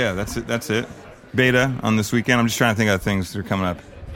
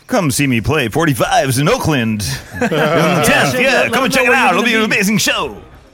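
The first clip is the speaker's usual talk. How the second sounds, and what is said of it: Hyped announcer-style DJ voice. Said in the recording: “That's my DJ voice.”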